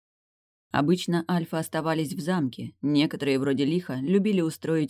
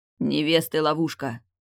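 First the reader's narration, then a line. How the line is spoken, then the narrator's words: Growled. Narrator (Russian): прорычал Теодрик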